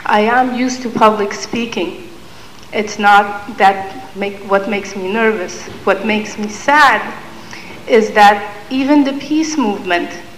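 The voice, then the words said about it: Shaking, emotional voice. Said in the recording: “my voice is shaking”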